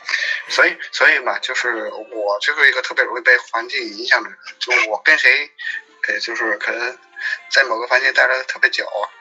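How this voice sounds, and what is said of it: Strong Beijing accent, heavy erhua. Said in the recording (Chinese): “你现在的北京北京这个腔调非常的严重，就是以以至于以至于让我真的没有觉得你是一个成都人 ... 你的这个儿化音非常的严重”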